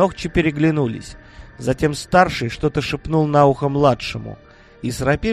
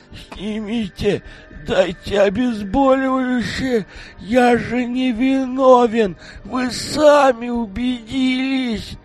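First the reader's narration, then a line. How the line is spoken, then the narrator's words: Mumbling through broken mouth. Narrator (Russian): Прошамкал он разбитым ртом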